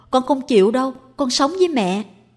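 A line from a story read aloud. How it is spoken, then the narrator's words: Child shouting. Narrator (Vietnamese): Tèo la lên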